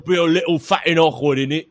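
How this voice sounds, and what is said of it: Put-on masculine British accent. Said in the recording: “I don't know how to do a British accent, obviously ... Louis Theroux channeling Jason Statham ... a little too like masculine for Louis Theroux because he's very yeah, soft spoken.”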